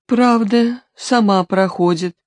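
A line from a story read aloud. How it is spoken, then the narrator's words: Meek reply after pause. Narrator (Russian): после некоторой паузы покорно аукнулась кардиологиня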